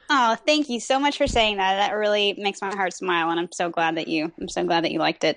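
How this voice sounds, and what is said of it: Slight Texan accent. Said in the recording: “I'm detecting a bit of an accent. ... Yes, I'm from Texas.”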